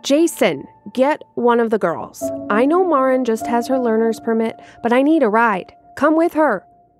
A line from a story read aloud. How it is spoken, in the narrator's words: yelled